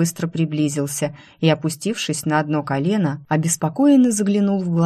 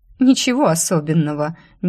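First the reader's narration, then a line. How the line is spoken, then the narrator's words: Nervous giggle. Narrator (Russian): нервно хихикнула я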